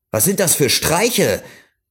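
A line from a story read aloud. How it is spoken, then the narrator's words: Call. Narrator (German): rief er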